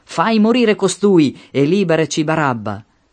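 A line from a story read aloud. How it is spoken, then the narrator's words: Shouted in unison. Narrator (Italian): Ma essi gridarono tutti insieme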